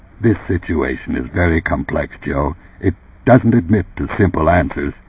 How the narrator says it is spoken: In a low but controlled voice, Runciter said

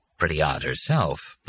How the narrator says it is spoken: Leo murmured

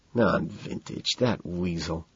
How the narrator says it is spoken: Price hisses

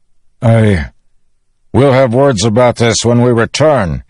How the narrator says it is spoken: he shouted

